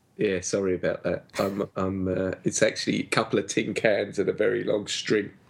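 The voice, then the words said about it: Affected put-on accent. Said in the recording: “This accent is totally and utterly affected”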